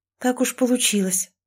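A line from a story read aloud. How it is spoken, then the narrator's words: Breathless exhale. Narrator (Russian): выдохнула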